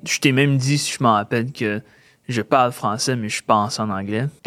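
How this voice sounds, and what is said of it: Slight anglophone accent in French. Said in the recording (French): “tu as un petit accent quand tu parles, puis des fois, tu traduis des choses”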